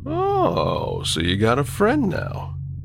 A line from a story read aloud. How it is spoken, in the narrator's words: He asked playfully